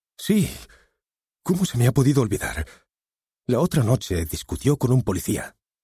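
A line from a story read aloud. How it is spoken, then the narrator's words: Exclaimed. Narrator (Spanish): exclamó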